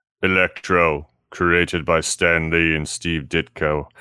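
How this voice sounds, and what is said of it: Deep, Russian-sounding character voice. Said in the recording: “I was trying to do a Watcher voice. ... It was good, but it was also sounded a little bit more like what's his face from Rocky IV. ... Drago”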